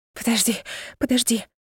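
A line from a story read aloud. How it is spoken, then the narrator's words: Breathless whisper. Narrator (Russian): прошептала, тяжело дыша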